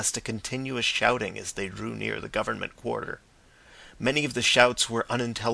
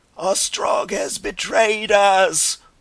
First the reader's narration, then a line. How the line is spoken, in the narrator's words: one man bawled in a hoarse voice again and again